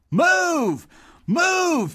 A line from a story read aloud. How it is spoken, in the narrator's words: yelled Sonny, getting louder